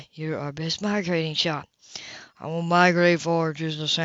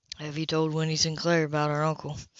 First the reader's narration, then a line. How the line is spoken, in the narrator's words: Cash asked in a hushed tone so they wouldn't be overheard